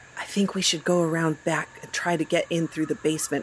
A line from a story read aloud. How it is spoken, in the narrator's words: Ethel whispered